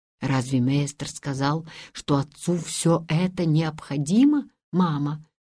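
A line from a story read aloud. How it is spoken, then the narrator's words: Plain. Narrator (Russian): спросил Ханс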